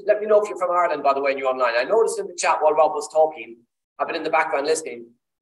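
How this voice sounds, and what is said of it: Irish accent. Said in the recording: “I'm Irish, as you can tell by the accent.”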